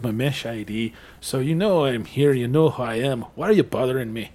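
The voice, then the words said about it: Attempted Scottish-Mexican accent. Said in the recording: “I have no idea how to do, like, a Scottish-Mexican accent, so I just went with, like, the first one instead. I don't even know if that's any good.”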